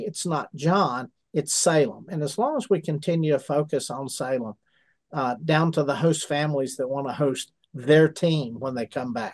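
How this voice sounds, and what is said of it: Southern American accent. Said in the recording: “Salem's in the South... I guess by the accent”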